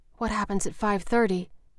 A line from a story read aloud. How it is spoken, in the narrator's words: Ophelia asked in a whisper